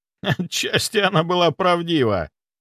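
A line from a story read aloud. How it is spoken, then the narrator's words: Loud laughter. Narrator (Russian): захохотал Николай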